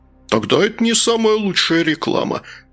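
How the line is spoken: Loud laughter. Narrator (Russian): расхохотался Пфуй

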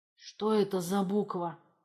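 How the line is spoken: Hoarse wheeze. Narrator (Russian): просипел

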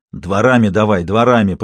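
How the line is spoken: Hoarse wheeze. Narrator (Russian): просипел Сидоров

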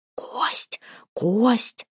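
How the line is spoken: Whispering voices. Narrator (Russian): зашептали над ямой

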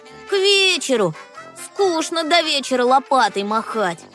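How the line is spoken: Restless grumbling. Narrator (Russian): проворчал неугомонный Кеша

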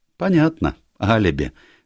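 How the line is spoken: Cheerful. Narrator (Russian): весело проговорила миссис Шайн

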